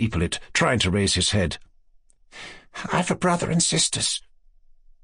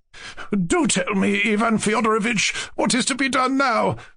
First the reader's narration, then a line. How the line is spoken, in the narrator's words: Lizaveta Prokofievna cried irritably